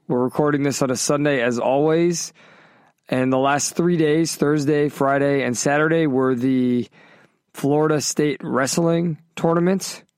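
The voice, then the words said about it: Tired, exhausted voice. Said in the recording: “I'm sure you hear it in my voice. I'm pretty exhausted right now.”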